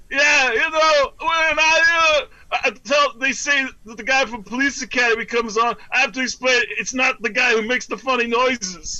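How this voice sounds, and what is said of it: Bobcat Goldthwait impression. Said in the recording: “lame-ass Goldthwait impersonation ... That very good impression, by the way. That's very, very good.”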